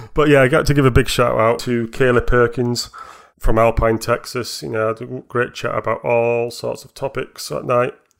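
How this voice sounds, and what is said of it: Yorkshire accent. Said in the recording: “my voice, you know, with dulcet Yorkshire tones.”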